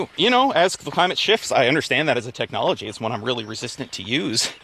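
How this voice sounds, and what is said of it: Out of breath while talking. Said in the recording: “getting out of breath for a second.”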